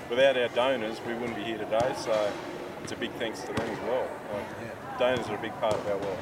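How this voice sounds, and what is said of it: Australian accent. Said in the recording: “go back home to Australia ... So is the accent. ... Americans have more trouble with our accent than we do.”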